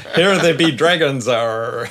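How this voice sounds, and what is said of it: Pirate voice. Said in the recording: “do a pirate voice”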